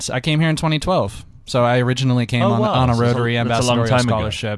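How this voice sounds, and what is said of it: American accent. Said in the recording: “as you guys can hear from my accent, yes. I am from the States”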